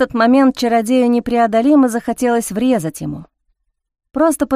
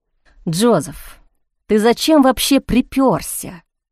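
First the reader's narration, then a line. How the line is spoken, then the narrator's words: Furious hiss. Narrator (Russian): в бешенстве прошипел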